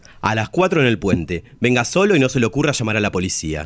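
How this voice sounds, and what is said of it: Imitated kidnapper voice. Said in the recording (Spanish): “imitar la voz de un secuestrador”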